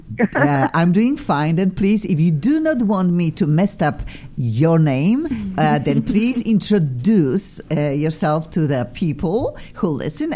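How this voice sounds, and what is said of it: Slight non-native accent in English. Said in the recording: “I'll be speaking my own way, funny way, with a little bit accent”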